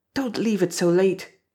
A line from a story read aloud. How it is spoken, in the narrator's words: said in a low, urgent voice